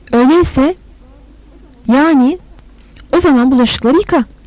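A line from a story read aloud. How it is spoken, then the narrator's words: Plain. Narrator (Turkish): dedi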